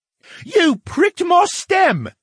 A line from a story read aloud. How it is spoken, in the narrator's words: the brain cried